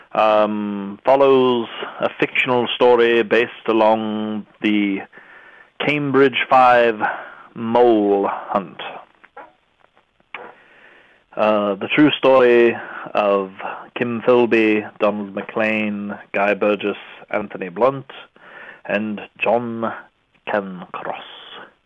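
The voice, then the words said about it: Put-on accent. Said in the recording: “this accent is drawing on, and it's dragging on ... I will drop the accent at will and carry on in my normal voice”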